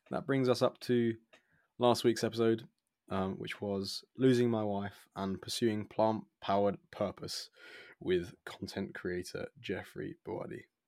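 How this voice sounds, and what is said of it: Hoarse, worn-out voice. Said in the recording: “my voice has definitely gone”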